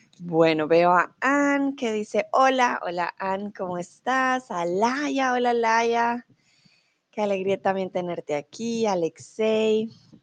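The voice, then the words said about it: Neutral Bogotá Colombian Spanish accent. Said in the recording (Spanish): “soy de Bogotá, soy de la capital. Por lo tanto, mi acento es un poco más neutral ... Mi acento, van a notar, es mucho más neutral”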